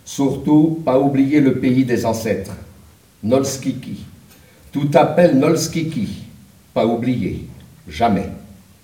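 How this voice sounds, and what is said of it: Put-on Polish accent. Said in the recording (French): “Il disait, avec son accent polonais”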